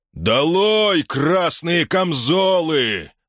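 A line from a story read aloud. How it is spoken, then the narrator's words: Yell. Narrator (Russian): заорал тот же голос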